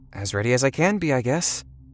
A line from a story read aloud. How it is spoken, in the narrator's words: with a small laugh out of my nose